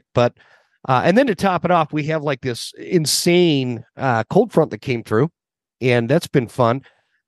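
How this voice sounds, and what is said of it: Sick-sounding voice. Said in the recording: “You probably still hear it in my voice. I'm still kind of sick.”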